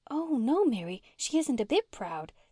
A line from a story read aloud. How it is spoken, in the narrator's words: said Una eagerly